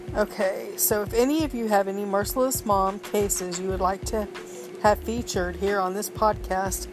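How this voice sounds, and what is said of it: Congested, nasal voice. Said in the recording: “excuse my voice today. I have a bit of a cold and sinus issues”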